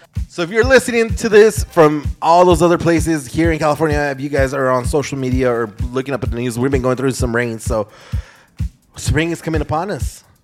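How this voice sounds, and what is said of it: Congested, allergy-affected voice. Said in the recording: “If you guys can hear it in my voice, I got my allergies”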